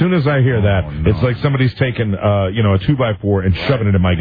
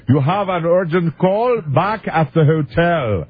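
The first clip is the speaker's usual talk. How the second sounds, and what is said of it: Rough imitated Bermudian accent. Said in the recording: “I can't really do I didn't work on it enough as far as the Bermudian accident. ... It's kind of this, it's kind of the Bahamas meets Britain. ... That's the accent.”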